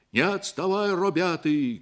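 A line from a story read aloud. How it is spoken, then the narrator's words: Shouting. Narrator (Russian): кричали они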